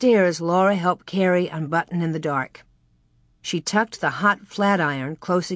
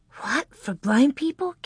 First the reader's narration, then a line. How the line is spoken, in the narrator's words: Carrie whispered